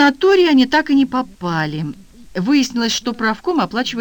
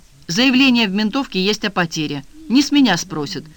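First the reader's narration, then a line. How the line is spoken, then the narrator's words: Smirking grunt. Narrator (Russian): хмыкнул Эдик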